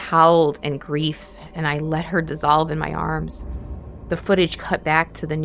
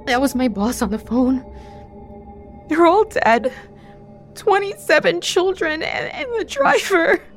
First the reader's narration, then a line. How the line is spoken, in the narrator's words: In between racking sobs, she told me